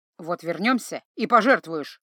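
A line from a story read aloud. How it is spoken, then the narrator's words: Embarrassed snapping. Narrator (Russian): огрызнулся смущенный Златко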